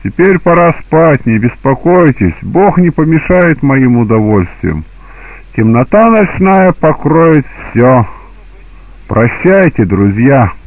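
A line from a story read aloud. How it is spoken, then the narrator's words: Laughing. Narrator (Russian): Хозяин сказал им, смеясь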